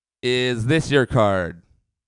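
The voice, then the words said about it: Imitates a magician's voice. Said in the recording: “my impression of a magician, got hired as a bartender. Magician, bartender.”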